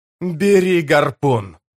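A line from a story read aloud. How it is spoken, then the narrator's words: Growling. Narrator (Russian): прорычал Тиблор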